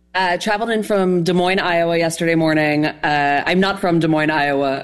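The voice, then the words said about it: New York accent. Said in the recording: “I think you can tell from my voice, but I'm from New York”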